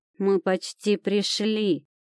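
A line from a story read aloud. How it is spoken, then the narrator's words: Growling. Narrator (Russian): прорычала она в ответ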